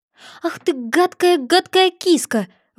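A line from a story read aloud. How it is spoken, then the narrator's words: Exclaimed. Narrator (Russian): воскликнула Алиса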